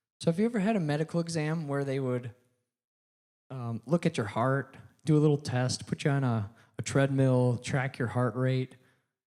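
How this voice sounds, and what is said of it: Hoarse voice. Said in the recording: “I could use a little throat exam right now. I'm a little bit hoarse”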